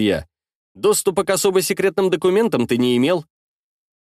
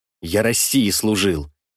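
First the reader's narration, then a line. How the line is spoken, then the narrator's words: Quiet. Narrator (Russian): тихо сказал Сироткин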